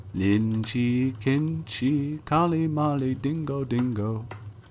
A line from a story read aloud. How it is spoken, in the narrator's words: Softly and sadly it sang